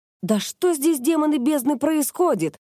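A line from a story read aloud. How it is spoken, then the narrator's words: Indignant exclamation. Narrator (Russian): воскликнула Кёко, обводя всех возмущенным взглядом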